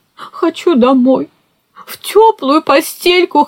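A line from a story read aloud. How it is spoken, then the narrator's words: Whimpering. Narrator (Russian): хныкал он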